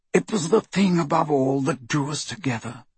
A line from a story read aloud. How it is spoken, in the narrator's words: he said quietly